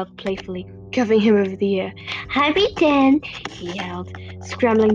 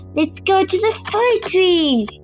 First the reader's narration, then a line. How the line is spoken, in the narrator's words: yelled